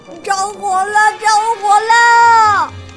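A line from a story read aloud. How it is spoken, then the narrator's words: Terrified piglet shrieking. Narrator (Chinese): 小猪惊恐地……尖叫着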